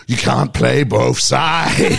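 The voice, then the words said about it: Poor imitation of another person's voice. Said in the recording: “terrible Connery impression”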